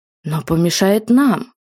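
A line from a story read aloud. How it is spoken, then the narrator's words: Irritated remark. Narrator (Russian): раздраженно заметил ротмистр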